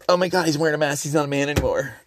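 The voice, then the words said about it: Stereotyped effeminate put-on voice. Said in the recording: “I don't know why I'm doing the gay voice”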